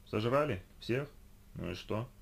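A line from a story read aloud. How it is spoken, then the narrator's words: Tired yawning. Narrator (Russian): Устало зевнула она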